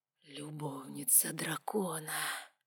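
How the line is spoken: Low whisper close to ear. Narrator (Russian): неторопливо склонился к моему уху и низко прошептал

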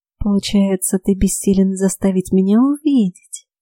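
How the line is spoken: Cooing. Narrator (Russian): проворковала она

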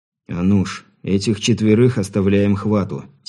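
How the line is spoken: Quiet. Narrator (Russian): тихо произнес Сергей

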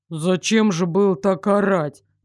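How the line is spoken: Deep, flustered voice. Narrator (Russian): пробасил тот красный до невозможности

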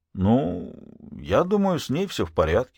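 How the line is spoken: Uncertain. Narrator (Russian): закончил неуверенно

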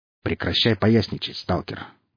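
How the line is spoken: Grumbling. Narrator (Russian): буркнул он

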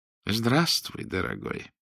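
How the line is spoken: Warm, sympathetic voice. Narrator (Russian): Голос Рудольфа Михайловича зазвучал как-то ласково и даже участливо

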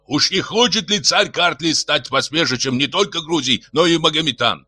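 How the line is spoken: Shouting. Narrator (Russian): кричал Симон

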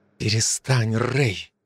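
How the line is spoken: Quiet speech. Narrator (Russian): тихо сказала

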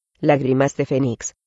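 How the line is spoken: Said quietly. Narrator (Spanish): dijo Ridley en voz baja

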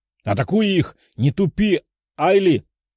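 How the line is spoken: Demon shouting. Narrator (Russian): кричал демон

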